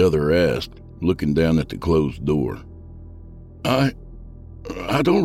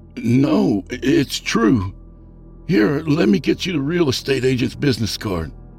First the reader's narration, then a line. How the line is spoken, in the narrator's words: I stammered